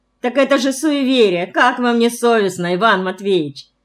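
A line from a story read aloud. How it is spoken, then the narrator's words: Laughing objection. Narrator (Russian): Смеясь, возразила Лиза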